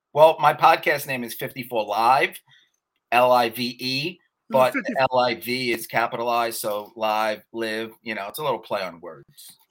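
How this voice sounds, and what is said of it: New York accent. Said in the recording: “I love that accent ... New York accent?”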